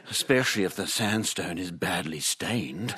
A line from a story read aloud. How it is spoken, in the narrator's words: she says, her voice dropping to a sexy rumble